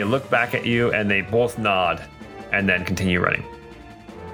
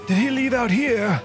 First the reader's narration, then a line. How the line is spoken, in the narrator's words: yell, say